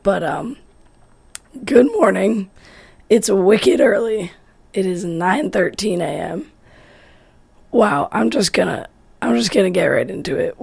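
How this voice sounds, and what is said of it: Hoarse, strained voice. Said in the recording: “my voice is a little bit shot ... I was yelling a lot”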